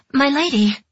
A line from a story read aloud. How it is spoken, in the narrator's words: the girl gasped